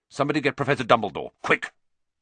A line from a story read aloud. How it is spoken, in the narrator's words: Percy say, in a suddenly sharp voice